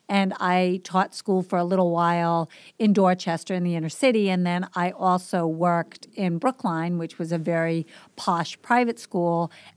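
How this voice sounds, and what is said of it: Boston accent. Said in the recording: “So I'm from the East Coast. If you didn't pick up on my accent, I grew up in Boston.”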